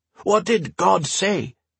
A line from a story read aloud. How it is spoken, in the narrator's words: several people shouted